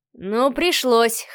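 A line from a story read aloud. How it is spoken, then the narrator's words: Young man's grunt. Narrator (Russian): хмыкнул парень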